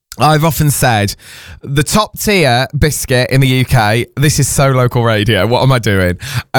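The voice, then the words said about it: Hoarse voice. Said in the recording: “I'm going to tell you why I'm hoarse”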